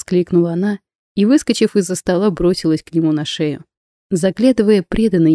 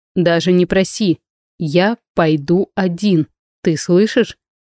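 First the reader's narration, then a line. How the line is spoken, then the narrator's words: Indignant, stern. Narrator (Russian): возмутился строго добавил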